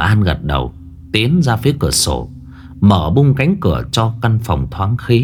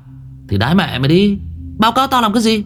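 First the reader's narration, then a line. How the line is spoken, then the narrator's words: Snapping irritably. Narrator (Vietnamese): Thằng Võ gắt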